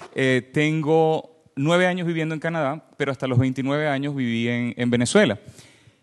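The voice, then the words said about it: Venezuelan Spanish accent. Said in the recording (Spanish): “soy venezolano, se me escucha en el acento.”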